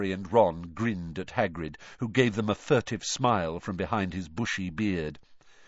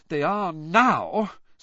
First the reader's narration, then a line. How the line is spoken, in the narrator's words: said Hermione, in an exasperated voice